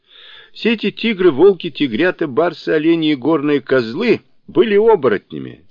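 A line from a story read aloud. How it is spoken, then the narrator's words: Laughing. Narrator (Russian): смеясь сказал Сунь Укун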